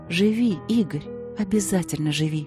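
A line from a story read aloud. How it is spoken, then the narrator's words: Whisper. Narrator (Russian): шептала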